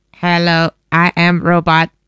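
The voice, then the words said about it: Imitated robot voice. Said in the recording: “You're getting better at the robot voice.”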